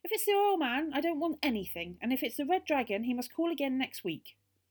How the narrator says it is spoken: The voice shouted again

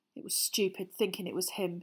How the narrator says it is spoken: he muttered

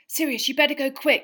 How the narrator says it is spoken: Harry panted

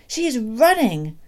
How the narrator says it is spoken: Doc Spencer cried

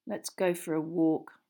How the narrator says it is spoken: Ron muttered to Harry

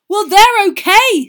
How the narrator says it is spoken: said Ron angrily

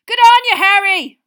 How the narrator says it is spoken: roared Seamus Finnegan

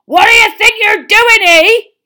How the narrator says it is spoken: roared so suddenly

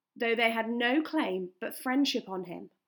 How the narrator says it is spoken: answered Bard

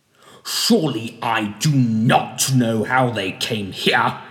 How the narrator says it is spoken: snapped Mr

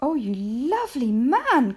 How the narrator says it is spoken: cried Mrs

